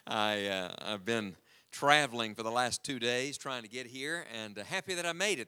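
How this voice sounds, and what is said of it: West Virginia accent. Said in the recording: “I hear your accent. You're not from here ... I was born and raised in the mountains of West Virginia”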